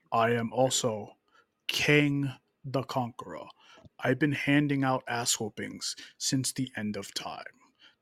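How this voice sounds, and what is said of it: Villain character voice. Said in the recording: “let me see if I can do a Kang voice”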